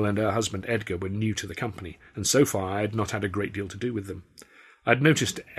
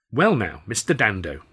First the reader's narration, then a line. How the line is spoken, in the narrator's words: she said brightly